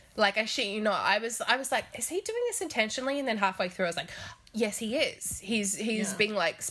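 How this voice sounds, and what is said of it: Usual voice. Nothing is said of it.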